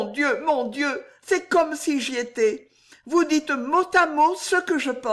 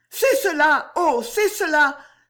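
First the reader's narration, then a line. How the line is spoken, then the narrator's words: Excited cry, clapping. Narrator (French): s'écria en battant des mains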